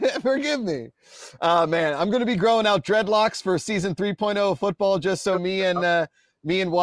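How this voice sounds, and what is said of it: Usual voice. Nothing is said of it.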